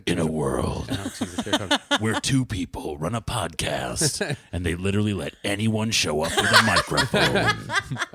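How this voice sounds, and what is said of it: Movie trailer narrator voice. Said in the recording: “fake movie previews ... supposed to do the voice”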